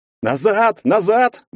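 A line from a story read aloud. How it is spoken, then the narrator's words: Group yelling. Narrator (Russian): вопили они все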